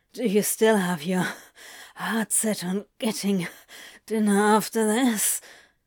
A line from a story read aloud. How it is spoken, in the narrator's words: Crowley grunted against his throat